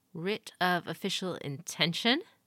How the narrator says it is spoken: he quoted, his voice rising in a questioning tone

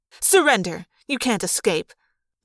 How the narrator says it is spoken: the woman snapped

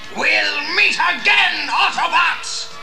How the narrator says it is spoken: He bellowed

